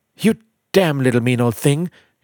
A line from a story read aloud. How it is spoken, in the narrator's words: cried Miss Jones wildly